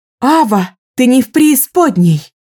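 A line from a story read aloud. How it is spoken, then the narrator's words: Shouted. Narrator (Russian): закричала Рува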